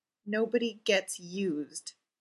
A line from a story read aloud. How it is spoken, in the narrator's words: he muttered